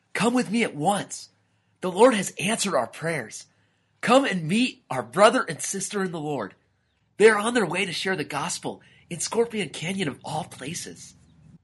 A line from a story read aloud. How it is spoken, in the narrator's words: shouted